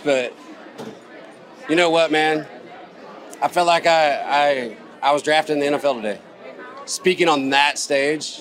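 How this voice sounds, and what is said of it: Hoarse, fading voice. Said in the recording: “I'm losing my voice”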